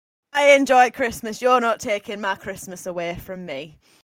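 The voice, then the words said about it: Put-on Barnsley accent. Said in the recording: “That's the Burnley accent I was asking of you ... Barnsley, not Burnley. ... I'm sure you were Spanish last time I met you.”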